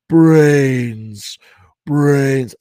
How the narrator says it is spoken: the ravenous creatures coming at them in the side lot, moaning and rasping

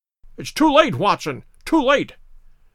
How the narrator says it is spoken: cried Holmes

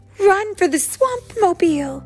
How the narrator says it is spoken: cried Bernard and Bianca

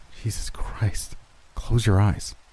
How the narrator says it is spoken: I whispered

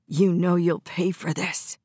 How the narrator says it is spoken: hissed

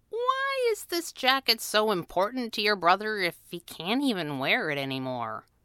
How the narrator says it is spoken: Abigail sighed

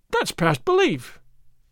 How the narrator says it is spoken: Don Diego cried

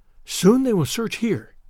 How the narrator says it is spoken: whispered the girl

